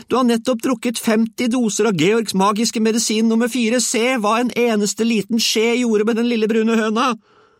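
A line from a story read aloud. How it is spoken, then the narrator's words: Shouting. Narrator (Norwegian): hun ropte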